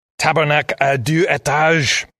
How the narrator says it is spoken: spat

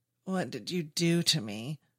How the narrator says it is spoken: David moans, his faculties returning to him

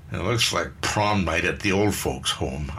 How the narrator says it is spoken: Eileen grumbled

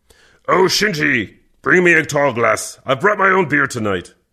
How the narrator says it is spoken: Kervec grunted

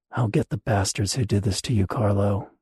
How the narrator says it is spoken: she muttered

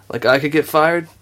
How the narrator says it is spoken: Tally laughed

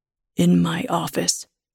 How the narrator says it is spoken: he says in a low voice

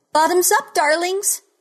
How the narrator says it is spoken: she cried

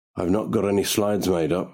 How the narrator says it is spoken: he says

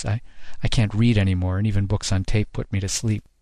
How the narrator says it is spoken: she sighed

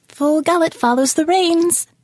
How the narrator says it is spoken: the bird chirped

